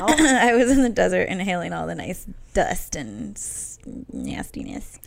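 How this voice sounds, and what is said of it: Low, hoarse, smoker-like voice. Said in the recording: “I gotta go low. I kind of lost my voice this weekend, so it's low, low, low. ... sound like a smoker ... I think it's sexy. It's like Phoebe's sexy voice.”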